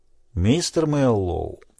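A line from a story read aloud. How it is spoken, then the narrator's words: Calm. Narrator (Russian): спокойно произнес Питер Фунгабера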